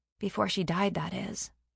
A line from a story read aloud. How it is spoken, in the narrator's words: Adley mumbled softly